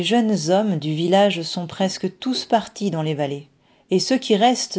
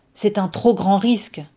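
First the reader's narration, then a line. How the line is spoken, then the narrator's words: Chief exclaiming. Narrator (French): s'exclame le chef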